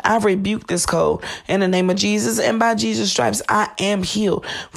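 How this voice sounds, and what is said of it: Raspy, slightly hoarse voice. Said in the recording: “my voice may be a little bit raspier than normal. I am fighting off this cold”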